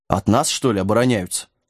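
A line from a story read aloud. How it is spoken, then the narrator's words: Snorting dog. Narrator (Russian): фыркнул пес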